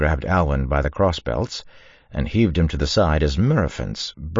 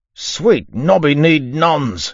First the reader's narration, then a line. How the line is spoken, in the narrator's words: he shouted